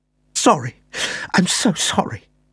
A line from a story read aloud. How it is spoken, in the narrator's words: Bristow gasped